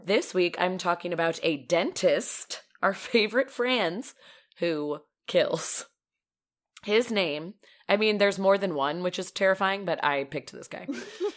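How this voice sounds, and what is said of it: Slightly raspy, deeper voice. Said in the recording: “Sorry for any of my coughing or raspiness... I have a little bit of a cold... I'm a little extra manly”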